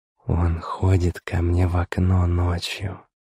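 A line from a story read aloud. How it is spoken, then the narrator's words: Whisper in the ear. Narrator (Russian): прошептала она на ухо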